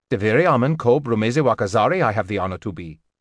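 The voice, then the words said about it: Tonal foreign accent. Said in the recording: “The voice took on a tonal accent.”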